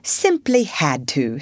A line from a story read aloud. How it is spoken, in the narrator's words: said the rat